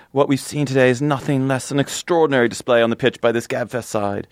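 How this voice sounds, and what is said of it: Bad put-on British accent. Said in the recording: “my bad British accent”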